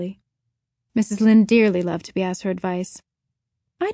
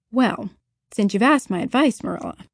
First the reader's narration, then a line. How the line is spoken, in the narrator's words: said Mrs